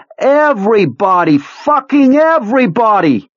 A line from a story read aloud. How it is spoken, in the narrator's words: Part of him wants to actually provoke a fight, to scream